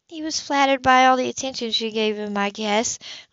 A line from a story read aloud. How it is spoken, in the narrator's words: Libby said miserably